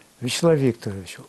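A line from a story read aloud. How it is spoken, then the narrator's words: Very quiet voice. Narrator (Russian): у него был тихий голос, он очень тихо говорил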